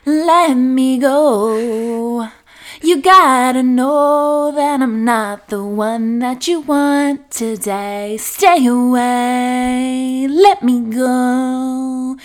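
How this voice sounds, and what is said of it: Annoying sung voice. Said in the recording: “I would literally sing in my annoying fucking voice”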